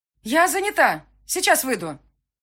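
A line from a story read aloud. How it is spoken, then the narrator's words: Breathless shout. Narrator (Russian): крикнула я, задыхаясь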